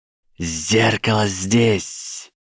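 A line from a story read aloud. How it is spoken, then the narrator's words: Hissed reply. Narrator (Russian): прошипел в ответ Гарри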